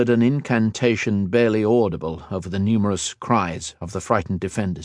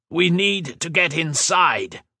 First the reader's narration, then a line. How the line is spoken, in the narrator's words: shouted